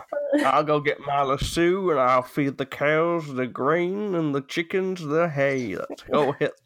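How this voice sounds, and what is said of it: Put-on cowboy accent. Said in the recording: “cowboy accent ... I ended off with a cowboy”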